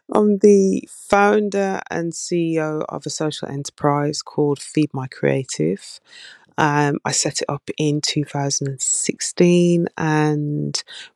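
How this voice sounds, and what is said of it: Birmingham English accent. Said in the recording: “I'm ... from Birmingham, even though you slated my accent.”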